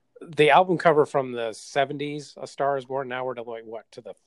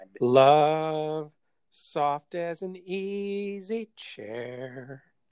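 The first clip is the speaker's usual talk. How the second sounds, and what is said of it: Imitates another person's singing voice. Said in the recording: “that's my impression.”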